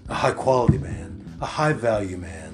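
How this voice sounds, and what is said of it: Smooth debonair put-on big boy voice. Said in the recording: “I love this new season 2 voice ... quite sexual and debonair of me and with that smooth voice ... put on my big boy voice ... only in small quantities can I keep this smooth ... Oh, so smooth.”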